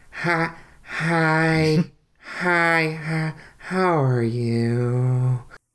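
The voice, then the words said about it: Breathy, heady, creepy puppet voice. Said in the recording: “Big Bird's voice. The voice is just kind of heady and and strange ... it sounds like someone with a Percocet habit ... doing an impression of him ... you have to lean into the creepiness of it ... that breathiness of it”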